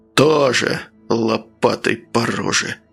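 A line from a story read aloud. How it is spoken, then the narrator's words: Displeased mutter. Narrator (Russian): недовольно пробормотал следователь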